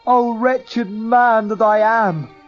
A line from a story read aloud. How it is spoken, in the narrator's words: cried